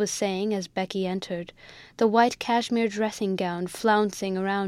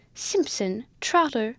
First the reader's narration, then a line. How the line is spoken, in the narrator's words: the mistress of the house cried in great wrath